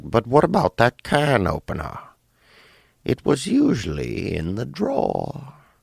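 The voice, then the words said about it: Impression of old Dateline interviewee. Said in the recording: “does a good impersonation of the old white guy from one of the Dateline episodes”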